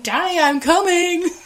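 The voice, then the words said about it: Shouting a movie line. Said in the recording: “then he's shouting”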